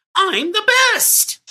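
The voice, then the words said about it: Cartoonish Toad character voice. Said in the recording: “I put on my best Toad voice”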